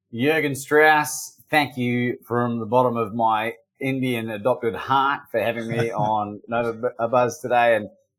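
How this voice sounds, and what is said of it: Slight Australian / New Zealand accent. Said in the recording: “don't be surprised if you don't hear an Indian accent, you'll hear an Australian / New Zealand, slight New Zealand accent”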